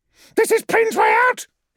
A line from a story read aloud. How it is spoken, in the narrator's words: He yelled